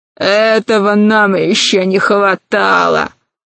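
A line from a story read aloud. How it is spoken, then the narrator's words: Loud laughter. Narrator (Russian): захохотал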